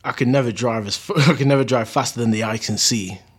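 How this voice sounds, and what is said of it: Poor put-on American accent. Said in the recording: “my worst attempt at an American accent ever”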